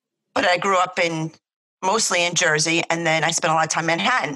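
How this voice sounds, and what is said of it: New York area accent. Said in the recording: “my parents are from Brooklyn. So I think that's where mine originate, my accent originated from ... I'm tri-state area”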